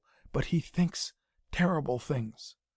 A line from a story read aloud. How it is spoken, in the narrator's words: said in a whisper scarcely audible